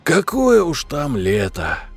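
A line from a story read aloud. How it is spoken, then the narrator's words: Sighing. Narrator (Russian): Вздохнул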